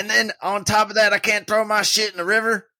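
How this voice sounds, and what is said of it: Put-on deep South Georgia accent. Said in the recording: “is South Georgia accent coming out? ... you got to get real deep”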